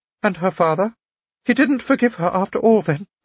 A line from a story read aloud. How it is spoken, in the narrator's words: cried Anna Andreevna